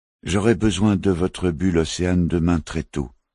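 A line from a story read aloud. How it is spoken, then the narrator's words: Plain. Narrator (French): dit-il au pêcheur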